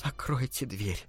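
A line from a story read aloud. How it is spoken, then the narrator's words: Trembling plea. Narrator (Russian): дрожащим голосом попросила Аманда Дамфрис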